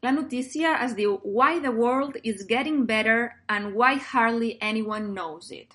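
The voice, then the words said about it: Put-on American English accent. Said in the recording (Catalan): “quin accent de San Francisco se t'ha posat”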